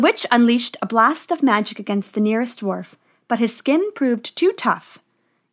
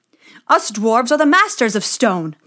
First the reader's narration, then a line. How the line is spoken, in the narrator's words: they cried